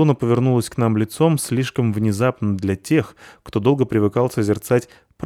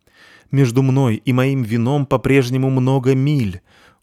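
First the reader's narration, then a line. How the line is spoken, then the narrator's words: Sorrowful exclamation. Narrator (Russian): горестно воскликнул Полчик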